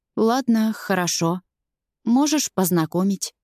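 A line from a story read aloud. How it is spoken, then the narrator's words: Unsure mumble. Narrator (Russian): неуверенно бормочу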